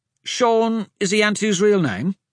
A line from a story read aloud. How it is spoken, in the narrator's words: Hadrian asked